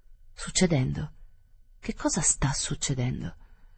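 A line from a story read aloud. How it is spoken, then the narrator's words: Murmured. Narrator (Italian): La signora Verloc mormorò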